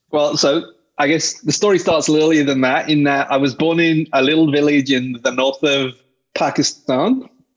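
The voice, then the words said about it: British accent. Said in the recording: “You got a British accent, right?”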